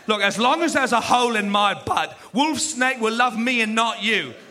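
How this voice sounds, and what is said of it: Exaggerated British accent. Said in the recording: “some British guy ... His accent was insane.”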